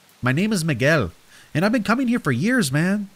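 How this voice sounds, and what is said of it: Character voice with thick accent. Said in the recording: “he said in a thick accent.”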